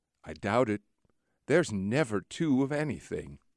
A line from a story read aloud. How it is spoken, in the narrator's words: my friend gently reflects